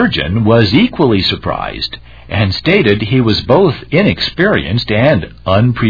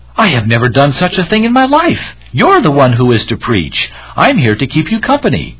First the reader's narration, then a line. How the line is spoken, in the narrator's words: The companion was startled and cried out